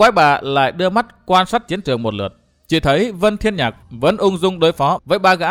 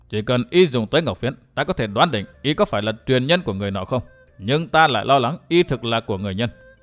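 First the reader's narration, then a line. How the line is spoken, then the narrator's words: Old woman, lowered voice. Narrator (Vietnamese): Đỗ quái bà hạ giọng nói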